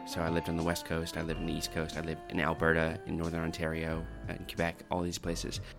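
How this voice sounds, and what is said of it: Canadian accent. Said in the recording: “I'm originally Canadian myself ... doesn't sound very Australian, that accent”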